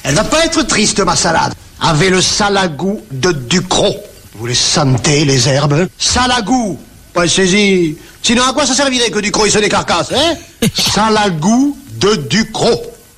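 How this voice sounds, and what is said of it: Heavy Provençal accent. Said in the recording (French): “un énorme accent provençal”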